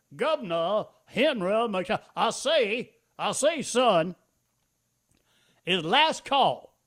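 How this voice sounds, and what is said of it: Imitation with Foghorn Leghorn-style drawl. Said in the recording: “not enough foghorn on your McMaster impression”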